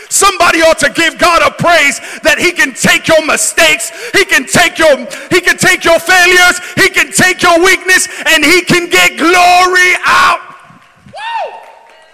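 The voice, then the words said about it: Screaming, very loud preaching. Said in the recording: “Sorry that I'm screaming so much.”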